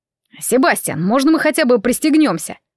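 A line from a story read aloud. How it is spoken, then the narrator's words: Reproachful shout over wind. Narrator (Russian): с укором воскликнул Алан, стараясь перекричать шум ветра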